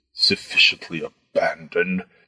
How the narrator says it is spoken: the fat man muttered

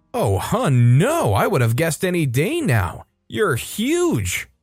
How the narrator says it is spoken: with a shocked expression and exclaims

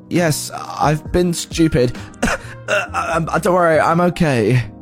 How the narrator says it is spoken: He manages to stutter something in the likes of

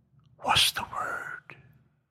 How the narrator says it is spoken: she whispered

